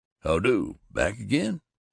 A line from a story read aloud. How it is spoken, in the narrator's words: Joe Paradise, a swart, aging man with a big mustache, grunted